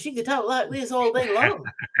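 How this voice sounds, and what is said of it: Imitated Deep South accent. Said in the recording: “my grandmother was from the Deep South... she used to talk like this”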